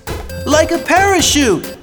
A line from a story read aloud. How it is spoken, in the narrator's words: cried Michael